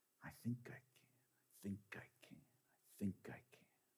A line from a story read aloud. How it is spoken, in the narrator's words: his face blushed red as he softly said